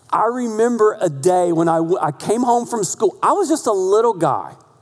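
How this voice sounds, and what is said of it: North Carolina Southern accent. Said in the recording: “My accent, I'm from North Carolina”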